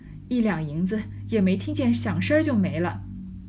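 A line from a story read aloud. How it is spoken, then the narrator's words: Old woman sighing. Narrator (Chinese): 刘姥姥叹道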